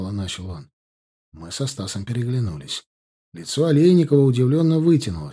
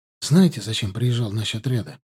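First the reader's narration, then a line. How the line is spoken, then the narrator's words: Hurried. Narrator (Russian): торопливо начал Клим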